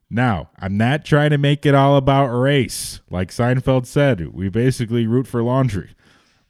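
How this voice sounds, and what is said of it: Put-on Chicago accent. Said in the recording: “he wants to do a Chicago accent. I'll do that one.”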